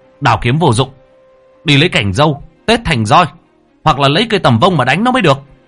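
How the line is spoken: Shouted. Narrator (Vietnamese): Lễ quát lên

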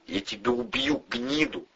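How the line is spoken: Breathed out. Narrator (Russian): выдохнул Ледовой

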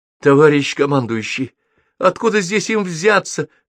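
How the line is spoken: Thin squeak. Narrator (Russian): тоненько пропищал начальник оперативного отделения

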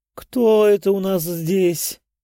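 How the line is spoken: Purring soprano. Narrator (Russian): промурлыкала Лидия своим божественным сопрано

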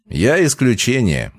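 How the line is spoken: Laughing. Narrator (Russian): Макс засмеялся

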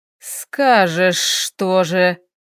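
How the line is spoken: Hissing. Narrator (Russian): Теперь и он шипел

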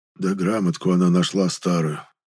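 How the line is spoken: Whisper turning to tears. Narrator (Russian): прошептал Печкин и вдруг заплакал

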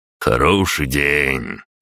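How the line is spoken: Drawling. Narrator (Russian): протянул Нахимов

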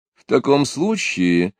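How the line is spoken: Gentle remark. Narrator (Russian): ласково заметила Екатерина Алексеевна

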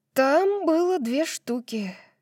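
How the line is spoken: Breathed out. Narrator (Russian): выдохнула Тори

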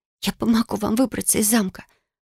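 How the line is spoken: Fervent whisper. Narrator (Russian): горячо зашептала Бекки

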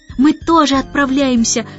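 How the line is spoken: Joyful shout. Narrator (Russian): радостно крикнул Майкл

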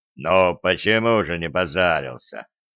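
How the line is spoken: Snorting, skeptical. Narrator (Russian): хмыкнул Левша

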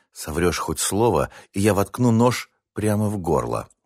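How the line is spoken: Flat words through teeth. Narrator (Russian): бесстрастно процедила Дана

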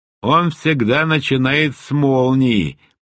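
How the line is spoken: Grumbling. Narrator (Russian): проворчала Джасра

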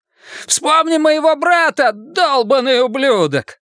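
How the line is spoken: Frantic scream. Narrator (Russian): кто-то заорал истошным голосом

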